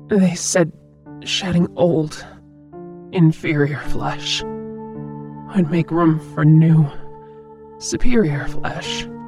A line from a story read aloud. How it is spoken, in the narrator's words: croaked